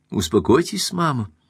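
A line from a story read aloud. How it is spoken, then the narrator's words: Soft and dignified. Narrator (Russian): сказала Беренис мягко и с достоинством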